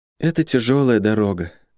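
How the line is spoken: Sad. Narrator (Russian): грустно сказала сестра

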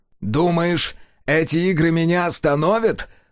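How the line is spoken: Laughing. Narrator (Russian): Сайлос рассмеялся

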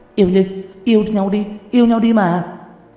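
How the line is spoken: Group of women shouting. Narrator (Vietnamese): Một đám hổ nữ hét to

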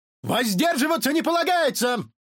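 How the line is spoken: Barked. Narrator (Russian): рявкнул на Милта Мюнси Труид

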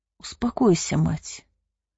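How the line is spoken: Gentle lord. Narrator (Russian): ласково произнес владыка Нон

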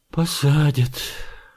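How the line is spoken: Glum agreement. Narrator (Russian): уныло согласился председатель

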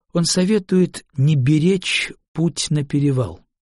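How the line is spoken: Calm. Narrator (Russian): спокойно произнесла Линде

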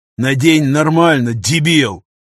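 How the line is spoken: Growl. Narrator (Russian): рыкнул пограничник

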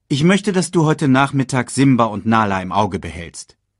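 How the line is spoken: Called out. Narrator (German): rief sie

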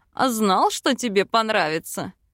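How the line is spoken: Smirking grunt. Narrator (Russian): Хмыкнул Бальд

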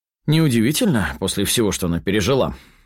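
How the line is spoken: Snapped angrily. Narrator (Russian): зло бросаю

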